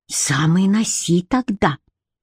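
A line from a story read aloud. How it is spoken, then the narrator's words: Hissed. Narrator (Russian): прошипела Бренна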